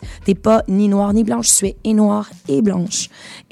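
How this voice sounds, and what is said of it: Québécois French accent. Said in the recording (French): “je me suis comme rattachée à, à mon côté québécoise ... mais mon accent, c'est mon identité et j'en suis fière, donc je l'ai gardé”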